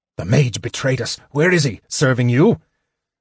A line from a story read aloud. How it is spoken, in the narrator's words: Sturm cried fiercely